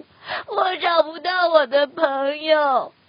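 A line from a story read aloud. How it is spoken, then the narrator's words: Wailing loudly. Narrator (Chinese): 鸭子放声大哭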